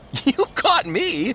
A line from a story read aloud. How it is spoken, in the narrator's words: Faithful laughed